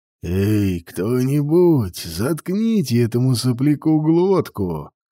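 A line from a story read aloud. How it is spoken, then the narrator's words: Growling, huge female being. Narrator (Russian): Прорычала в ответ Гамула, огромная великая дочь смерти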